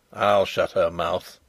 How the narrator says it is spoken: said Sapt grimly

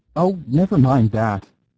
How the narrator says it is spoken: cried Gibbs in a fever

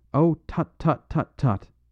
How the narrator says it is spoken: cried

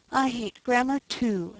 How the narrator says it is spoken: sighed Sarah Ray

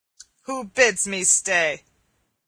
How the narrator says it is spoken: said the miller, in a voice deep and gruff, like the growl of a great dog

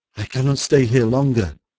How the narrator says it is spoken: groaned Simard, quaking, his nerves like himself in rags

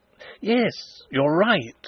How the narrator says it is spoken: exclaimed Fritz, his face brightening

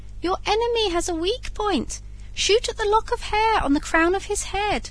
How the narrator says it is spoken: called out the woodpecker

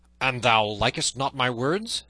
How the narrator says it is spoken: said the other fiercely

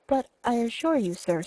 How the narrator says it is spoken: stammered Fisher

